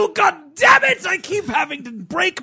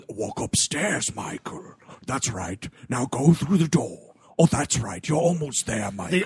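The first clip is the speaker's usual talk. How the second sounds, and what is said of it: Scary villain character voice. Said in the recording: “my scary voice”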